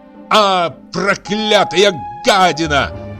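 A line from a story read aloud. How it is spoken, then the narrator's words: Shout. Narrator (Russian): крикнул он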